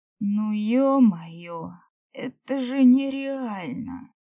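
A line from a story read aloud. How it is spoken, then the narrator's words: Whimpered. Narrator (Russian): захныкал Персей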